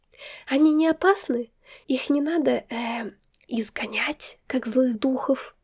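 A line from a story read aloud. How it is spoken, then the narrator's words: Whispered privately. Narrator (Russian): сказала шепотом, чтобы только Марк меня мог услышать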